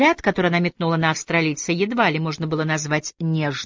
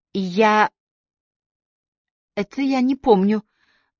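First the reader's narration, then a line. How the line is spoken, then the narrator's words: Trembling embarrassed voice. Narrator (Russian): дрогнувшим голосом произнесла заметно зардевшаяся мисс Ли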